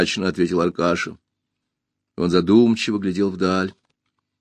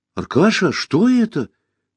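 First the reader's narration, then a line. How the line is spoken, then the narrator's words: Exclaimed. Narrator (Russian): воскликнул Пашка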